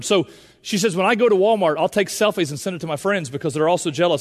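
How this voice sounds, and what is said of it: Southern Indiana accent. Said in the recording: “You gave me Southern Indiana.”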